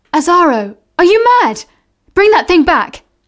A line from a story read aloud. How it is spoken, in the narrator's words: shouted